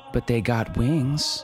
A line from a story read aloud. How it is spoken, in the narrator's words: Annabelle said